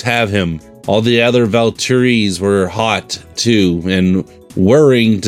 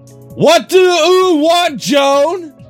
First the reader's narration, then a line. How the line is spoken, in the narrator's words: Nicholas asked in a booming, roaring voice